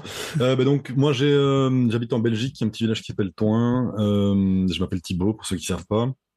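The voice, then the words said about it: Belgian French accent. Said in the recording (French): “on sait que tu es en Belgique ... Oui, ça doit s'entendre l'accent.”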